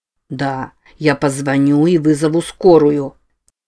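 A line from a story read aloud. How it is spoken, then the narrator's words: Soft, sincere. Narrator (Russian): проговорил Норман мягко и с искренностью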